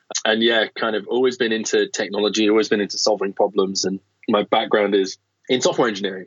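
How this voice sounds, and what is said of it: British accent. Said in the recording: “you can probably tell by my accent, it gives me away a little bit, that I'm not from San Francisco ... Originally from the UK”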